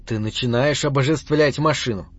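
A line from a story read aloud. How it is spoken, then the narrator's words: Cold. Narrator (Russian): холодно заметил сын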